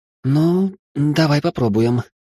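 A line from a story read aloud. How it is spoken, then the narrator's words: Uncertain young woman. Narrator (Russian): неуверенно ответила девушка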